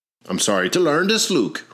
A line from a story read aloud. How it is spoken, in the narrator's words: replied the Reverend